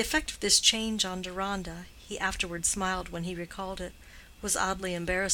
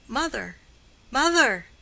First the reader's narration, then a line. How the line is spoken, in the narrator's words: he called out